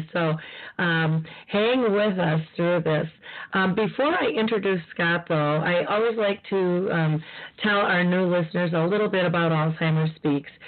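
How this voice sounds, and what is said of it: Slightly froggy, hoarse voice. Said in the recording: “I'm still fighting the crud, so my voice is a little froggy today”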